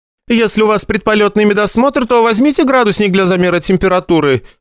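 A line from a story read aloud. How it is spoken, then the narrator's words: Loud, from behind screen. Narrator (Russian): громко сказала из-за ширмы Антонина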